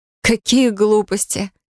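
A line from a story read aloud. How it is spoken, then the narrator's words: After laughing. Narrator (Russian): отсмеявшись, произнесла я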